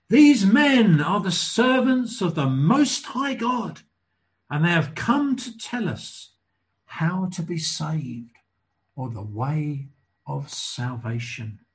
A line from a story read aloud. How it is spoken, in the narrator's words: she chased after Paul and the others, shouting